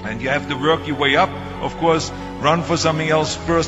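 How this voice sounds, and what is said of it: Strong foreign accent. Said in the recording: “my crazy accent”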